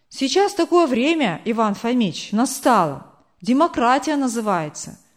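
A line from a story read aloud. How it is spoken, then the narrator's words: Plain. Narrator (Russian): сказал Павел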